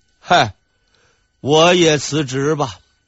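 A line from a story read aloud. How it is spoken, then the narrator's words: Sigh. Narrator (Chinese): 一声叹息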